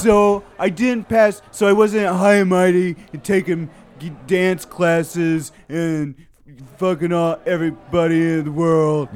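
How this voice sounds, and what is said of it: Imitates another person's voice. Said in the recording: “That's not how you sound... Sounds like Randy.”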